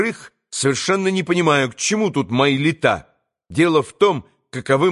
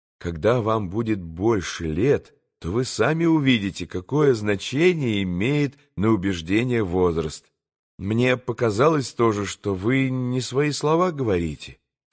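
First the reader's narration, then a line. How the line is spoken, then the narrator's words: Modest, calm reply. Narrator (Russian): скромно и спокойно ответил Алеша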